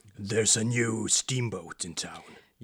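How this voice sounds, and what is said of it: Dramatic movie trailer voice. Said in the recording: “my trailer voice”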